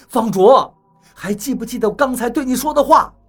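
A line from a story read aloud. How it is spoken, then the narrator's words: Shout. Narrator (Chinese): 我对方卓喊道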